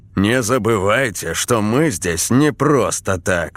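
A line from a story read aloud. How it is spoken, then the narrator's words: Stern. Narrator (Russian): строго сказал Долонский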